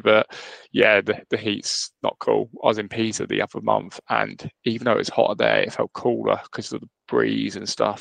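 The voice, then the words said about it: Sick, congested-sounding voice. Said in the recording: “I referenced my accent last time. It's probably worse today because I've got the dreaded man flu. I'm man down. I'm struggling today.”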